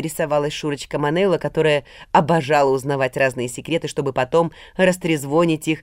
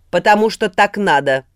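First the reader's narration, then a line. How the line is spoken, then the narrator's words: Curt, sharp. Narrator (Russian): отрезал мастер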